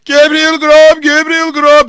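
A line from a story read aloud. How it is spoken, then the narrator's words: Shouted eerie wind-borne chant. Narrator (Turkish): diye bağırılıp tekrarlanan sanki vahşi bir rüzgarın mezarcının kulaklarına kadar getirdiği korkunç bir şarkıydı bu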